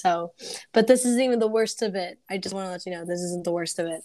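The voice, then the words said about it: Hoarse, congested, nearly lost voice. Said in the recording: “I have a cold, so if you hear coughing, it's my fault, and I lost my voice.”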